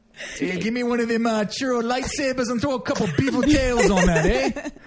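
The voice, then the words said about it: Poor put-on Canadian accent. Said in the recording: “Bad accent.”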